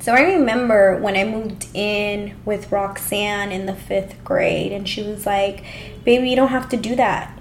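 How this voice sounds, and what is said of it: Emotional, tearful voice. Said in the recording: “I'm getting emotional ... I didn't think I was going to cry”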